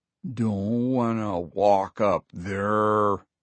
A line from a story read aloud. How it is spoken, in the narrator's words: Leo muttered